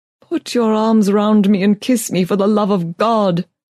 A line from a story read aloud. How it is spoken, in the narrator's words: cried